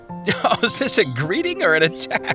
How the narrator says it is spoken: Evangelist laughed

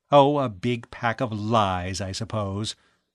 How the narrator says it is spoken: Edith Shaw said scornfully

